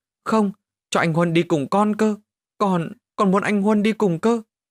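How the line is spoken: Whimpering child. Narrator (Vietnamese): Thằng Phát mếu máo mà rằng

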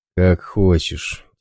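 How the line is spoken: Heavy sigh. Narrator (Russian): тяжело вздохнул

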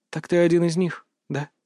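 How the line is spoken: Quiet reply. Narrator (Russian): так же тихо ответил

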